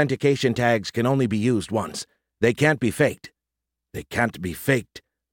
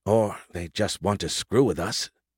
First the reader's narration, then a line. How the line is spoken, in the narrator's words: Kinsta muttered